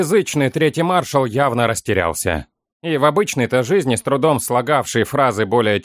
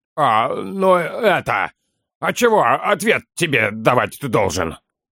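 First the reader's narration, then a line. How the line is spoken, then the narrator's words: Flustered bark. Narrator (Russian): Рявкнул он, тщетно пытаясь скрыть растерянность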